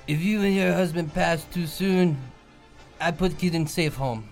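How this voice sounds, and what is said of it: Russian-accented Putin impression. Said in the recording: “That sounds like Russian. ... I've been doing a lot of Putin impressions lately. ... That was a pretty good Putin impression.”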